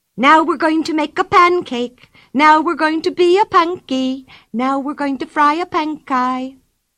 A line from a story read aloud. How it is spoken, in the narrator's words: Pippi cried